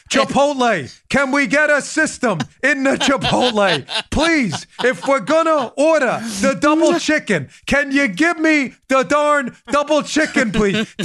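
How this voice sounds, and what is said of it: Bernie Sanders impression. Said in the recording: “do my Bernie voice”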